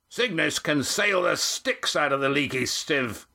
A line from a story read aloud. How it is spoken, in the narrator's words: shouted Mirak